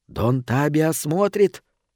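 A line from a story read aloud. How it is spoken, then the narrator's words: Unknown whisper. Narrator (Russian): раздавался чей-то шепот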